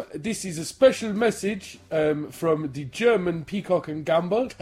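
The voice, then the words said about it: Unconvincing put-on German accent. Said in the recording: “I don't even know what that accent is... That's German, is it?”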